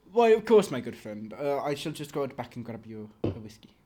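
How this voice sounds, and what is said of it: Put-on accent, slipping. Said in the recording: “The accent has gone off rails at this point.”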